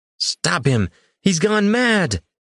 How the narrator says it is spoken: Rashan's high voice carried over the shouts and mutterings of the guests

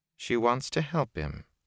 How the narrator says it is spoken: Nynaeve said calmly

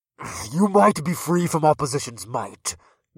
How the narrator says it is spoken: Grug growled

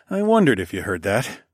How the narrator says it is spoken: I chuckled

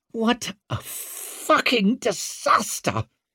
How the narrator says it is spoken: he snarled

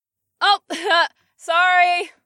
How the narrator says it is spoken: Penumbra gasped above us

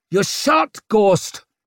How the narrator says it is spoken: yelled Leo

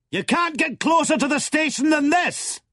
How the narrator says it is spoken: said the President, leaning forward to let his voice carry to the pilot

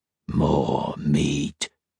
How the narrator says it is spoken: growled

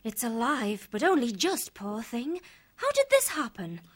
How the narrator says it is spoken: Giri explained eagerly

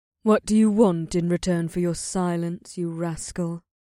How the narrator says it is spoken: She finally sighed

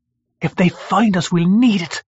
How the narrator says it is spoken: she hissed back

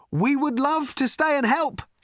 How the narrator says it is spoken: shouted Ford

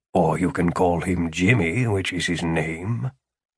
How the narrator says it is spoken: Philip muttered

